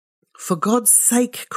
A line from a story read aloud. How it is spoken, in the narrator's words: cried her husband impatiently